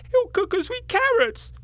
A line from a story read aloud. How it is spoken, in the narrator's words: cried the third